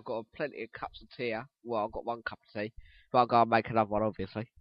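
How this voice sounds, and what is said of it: Strained voice, losing it. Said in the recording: “my voice is going, I'm literally losing my voice”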